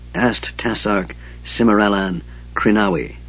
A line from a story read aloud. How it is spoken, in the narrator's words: said Raistlin softly